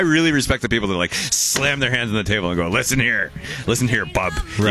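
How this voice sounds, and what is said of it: Usual voice. Nothing is said of it.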